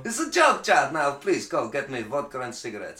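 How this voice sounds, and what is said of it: Exaggerated put-on Russian accent. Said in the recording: “Very racist impersonation of Russia”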